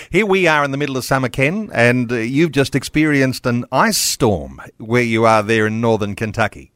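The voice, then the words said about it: Australian accent. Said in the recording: “Great to hear that Aussie accent.”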